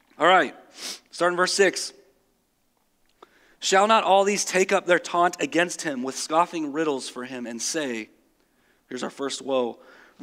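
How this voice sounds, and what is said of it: Slightly cracky, strained voice. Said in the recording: “my voice is a little bit cracky because of the concert the other night”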